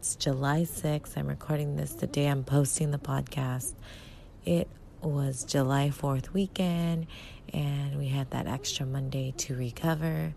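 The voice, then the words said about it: Very soft voice. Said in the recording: “my voice sounds very soft, it's the morning”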